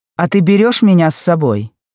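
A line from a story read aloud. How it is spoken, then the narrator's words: Cheerful shout. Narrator (Russian): весело кричала Жанна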